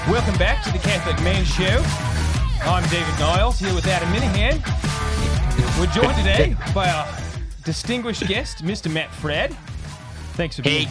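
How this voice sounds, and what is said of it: American attempting an Australian accent. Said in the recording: “It was a good impression try. Of an American doing an Australian accent.”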